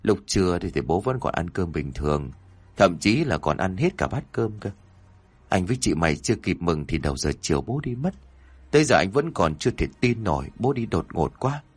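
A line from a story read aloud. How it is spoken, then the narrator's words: Sighing, recounting. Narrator (Vietnamese): Ông Cảnh thở dài, ông kể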